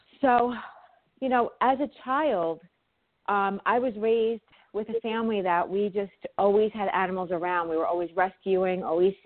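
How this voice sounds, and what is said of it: New York accent. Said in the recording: “my New York accent ... I hope that I don't talk too fast ... the New York in me does come out”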